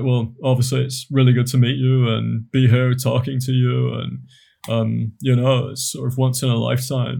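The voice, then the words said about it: Imitates another person's voice. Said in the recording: “I do a really good impression of you ... it sounds exactly like me”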